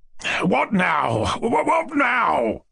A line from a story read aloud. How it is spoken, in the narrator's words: the general cried, like one possessed